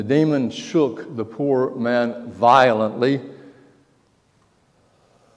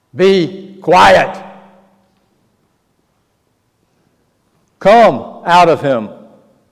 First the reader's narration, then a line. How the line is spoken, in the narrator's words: Raising his voice